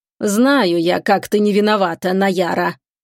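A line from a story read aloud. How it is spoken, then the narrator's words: Menacing older woman. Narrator (Russian): Грозно говорила более взрослая и явно разумная женщина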